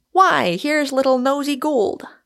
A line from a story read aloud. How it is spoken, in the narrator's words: he exclaimed